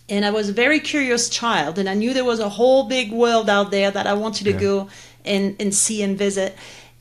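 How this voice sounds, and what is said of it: French accent. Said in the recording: “you can tell from my accent, I was born and raised in France”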